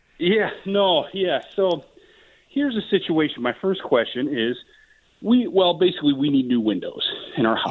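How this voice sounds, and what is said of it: Out of breath, panting speech. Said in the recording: “Sorry if I'm out of breath. I'm moving a table in my house.”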